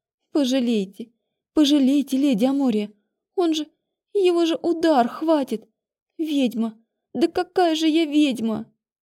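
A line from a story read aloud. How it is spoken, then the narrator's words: Sobbing. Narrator (Russian): Зарыдала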